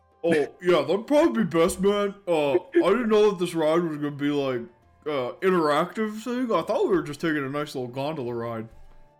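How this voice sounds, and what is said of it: Exaggerated deep voice. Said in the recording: “you gotta do deep voice, dude.”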